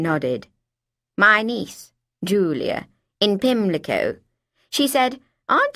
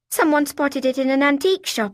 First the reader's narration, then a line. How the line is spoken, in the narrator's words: I blurted